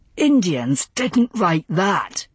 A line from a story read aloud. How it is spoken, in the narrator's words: he snapped